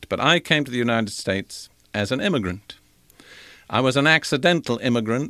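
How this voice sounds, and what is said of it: Non-American, partly British-sounding accent. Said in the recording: “I was not born an American. I imagine that my voice tells you that ... my dear British friends now tell me that I no longer talk like a Britisher”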